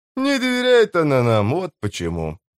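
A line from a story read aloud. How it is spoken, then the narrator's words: Grumbling. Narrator (Russian): проворчал он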